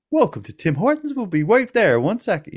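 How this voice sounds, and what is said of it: Scripted call center voice. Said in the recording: “with this kind of call center voice”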